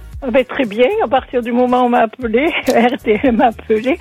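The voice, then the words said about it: Southern French Marseille accent. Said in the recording (French): “c'est quoi ce petit accent ? Ça sent les Bouches du Rhône... c'est Marseille”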